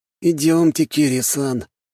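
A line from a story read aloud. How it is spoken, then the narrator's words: Sad agreement. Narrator (Russian): печально согласился новоявленный отец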